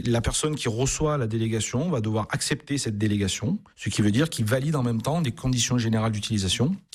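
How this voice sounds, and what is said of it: Regional accent from Avignon. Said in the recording (French): “est né en Avignon... on entend l'accent aussi depuis tout à l'heure”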